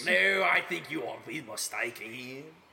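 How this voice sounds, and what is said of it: French accent. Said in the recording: “this is what a French accent sounds like.”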